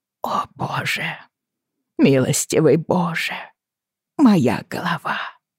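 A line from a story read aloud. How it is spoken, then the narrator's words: Whisper. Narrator (Russian): шептала она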